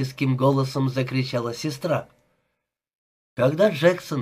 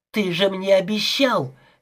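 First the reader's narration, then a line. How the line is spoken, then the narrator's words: Shrieking. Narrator (Russian): визжала она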